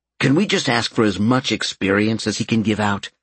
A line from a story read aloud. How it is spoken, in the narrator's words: Albert asked quickly